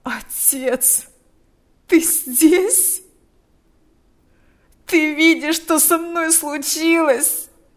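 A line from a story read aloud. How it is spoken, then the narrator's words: Moaning. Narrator (Russian): стонал он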